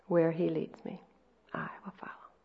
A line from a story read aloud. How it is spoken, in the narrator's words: in a very beautiful, sweet voice, she sang